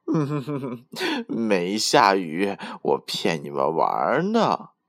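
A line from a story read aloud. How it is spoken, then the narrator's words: Laughing. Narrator (Chinese): 小蜗牛笑着说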